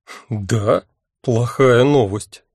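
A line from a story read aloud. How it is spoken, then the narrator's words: Wry grunt. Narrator (Russian): хмыкнул я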